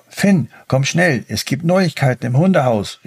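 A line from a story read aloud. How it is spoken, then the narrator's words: Calling out. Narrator (German): rief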